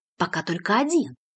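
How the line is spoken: Whispered reply. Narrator (Russian): также шепотом ответил Ильясов

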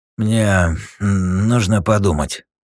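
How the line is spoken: Forced, strained. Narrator (Russian): не без труда выдавил из себя

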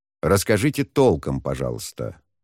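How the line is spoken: Cold. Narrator (Russian): холодно произнес Шен

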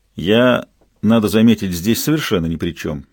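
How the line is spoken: Cold reply. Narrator (Russian): холодно ответил тот, кого назвали Левкой

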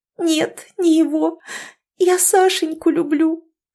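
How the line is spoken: Sobbing. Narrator (Russian): всхлипнула Ирина

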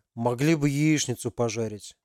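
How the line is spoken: Disgusted grumbling. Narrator (Russian): проворчал Макс, брезгливо

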